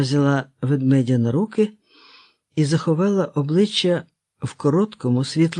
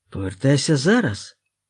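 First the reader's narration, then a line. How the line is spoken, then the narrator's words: Girl sighing. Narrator (Ukrainian): дівчинка зітхнула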